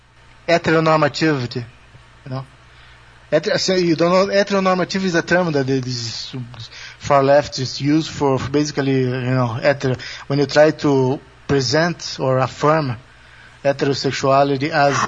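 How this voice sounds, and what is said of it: Accented English. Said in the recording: “Maybe my accent is not helping very much.”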